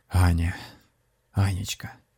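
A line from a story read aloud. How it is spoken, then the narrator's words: Wistful sigh. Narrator (Russian): вздохнул шаман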